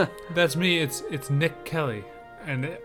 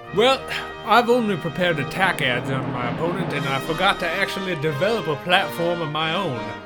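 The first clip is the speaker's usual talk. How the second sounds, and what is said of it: Put-on Southern US accent. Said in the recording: “I was fooling you all with that southern accent”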